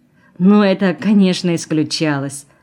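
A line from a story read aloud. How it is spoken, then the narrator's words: Laughing. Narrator (Russian): засмеялась она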